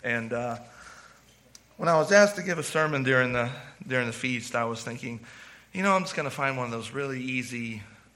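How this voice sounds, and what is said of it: Worn-out, quiet voice. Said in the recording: “If you can't tell, my voice is shot. It's shot because I'm so quiet.”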